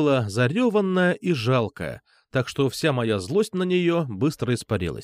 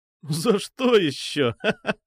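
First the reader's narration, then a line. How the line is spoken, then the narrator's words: Surprised laughing. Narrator (Russian): удивился я и засмеялся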